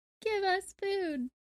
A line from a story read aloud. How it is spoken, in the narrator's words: sobbed the woman